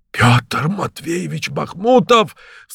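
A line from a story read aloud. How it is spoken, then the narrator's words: Startled cry, nearly trembling. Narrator (Russian): вскрикнул мой медик, чуть не задрожав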